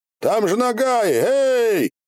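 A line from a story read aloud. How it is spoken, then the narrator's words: Caring shout. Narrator (Russian): заботливо крикнули вслед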